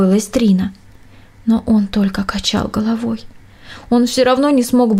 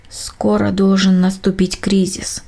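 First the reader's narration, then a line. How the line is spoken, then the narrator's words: Plain. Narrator (Russian): сказал он как-то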